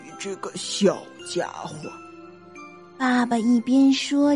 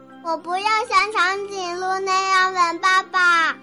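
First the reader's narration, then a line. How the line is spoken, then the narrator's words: Little one shouting. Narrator (Chinese): 熊宝宝叫道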